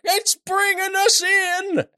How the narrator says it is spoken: Salt at the wheel just screaming

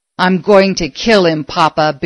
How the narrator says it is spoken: Billy snarled, quivering with anger

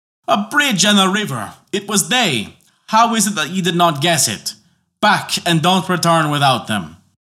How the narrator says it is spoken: Boney shouted with rage and cried out

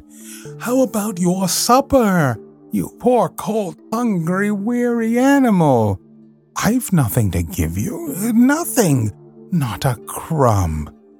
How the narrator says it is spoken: he moaned

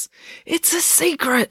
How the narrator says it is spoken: he whispered

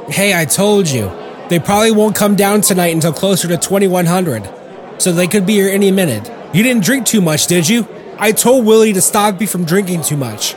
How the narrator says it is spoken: Mason Pointers called out

